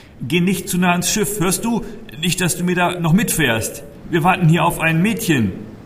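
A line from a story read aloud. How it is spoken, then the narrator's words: Loud admonishing call. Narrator (German): rief ich Kire laut ins Gewissen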